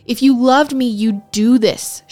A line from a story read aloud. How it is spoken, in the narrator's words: she shouted at him